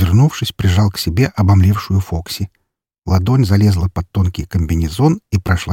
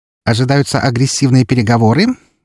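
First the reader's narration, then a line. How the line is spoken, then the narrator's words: Cheerful question. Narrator (Russian): весело спросила она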